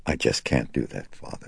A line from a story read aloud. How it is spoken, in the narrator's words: she said, in a soft, flat, toneless voice